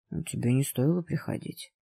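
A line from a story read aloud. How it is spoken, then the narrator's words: Soft voice. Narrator (Russian): мягко сказал голос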